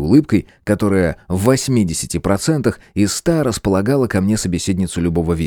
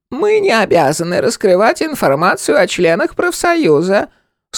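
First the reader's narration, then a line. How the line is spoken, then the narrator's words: Creaky voice. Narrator (Russian): сообщила она скрипучим голосом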